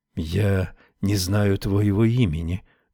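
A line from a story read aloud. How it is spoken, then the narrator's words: Whisper close by. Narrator (Russian): прошептал совсем рядом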